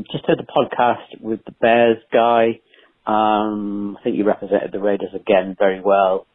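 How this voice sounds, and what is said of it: English accent, fast talking. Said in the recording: “I'm sorry I talk so fast, and all the listeners probably couldn't understand my English accent”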